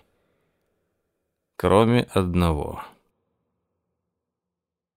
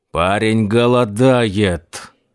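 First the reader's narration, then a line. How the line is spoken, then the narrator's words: Growled. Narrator (Russian): прорычал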